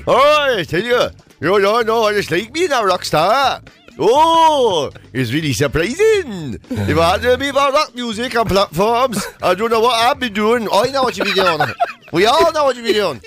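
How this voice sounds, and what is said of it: Mixed Newcastle and Welsh accent. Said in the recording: “That's the weirdest combination of accents I've ever heard in one person. You did full Newcastle, then you took in a bit of Jack Charlton. And then... And there was a bit of Welsh in it and all.”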